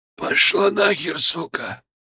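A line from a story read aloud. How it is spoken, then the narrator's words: Hoarse strained male voice. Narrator (Russian): Его голос был хриплым, сорванным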